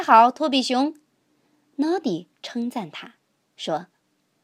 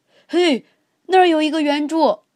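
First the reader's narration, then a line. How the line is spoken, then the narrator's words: Loud shout. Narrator (Chinese): 托比熊，他大声喊道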